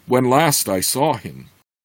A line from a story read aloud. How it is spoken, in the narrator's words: recalled, half-elf, shaking his head sadly